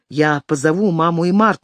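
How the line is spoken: Plain. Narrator (Russian): сказал Джек

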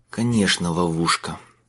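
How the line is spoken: Mutter. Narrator (Russian): пробормотал он

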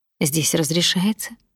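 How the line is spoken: Quiet reply. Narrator (Russian): тихо ответил он

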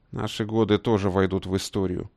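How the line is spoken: Gruff grumble. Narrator (Russian): буркнул генерал

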